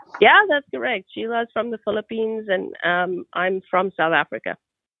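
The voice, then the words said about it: South African English accent. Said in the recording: “So that's the accent. I thought it was an Alabama accent all this time, but it's actually from South Africa”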